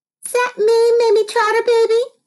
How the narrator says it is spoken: squeaked Gilly

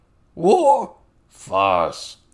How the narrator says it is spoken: Toad Swallow grumbled

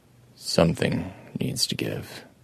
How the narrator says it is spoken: Adam told it quietly

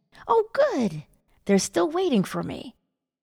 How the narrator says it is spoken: exclaimed

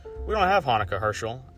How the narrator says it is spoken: answered sadly

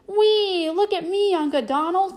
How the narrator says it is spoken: cried a familiar voice

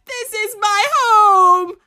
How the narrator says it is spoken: I screams

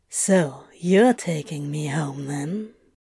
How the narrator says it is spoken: Crowley breathed into their kiss

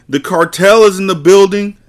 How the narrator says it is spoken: The sound of someone yelling

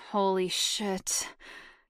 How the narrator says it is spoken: he moaned

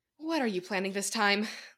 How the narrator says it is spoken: Lucy asked wearily

